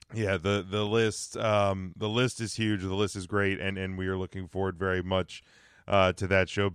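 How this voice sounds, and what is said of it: Voice in rough shape. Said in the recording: “my voice is just a complete... Complete effing train wreck tonight.”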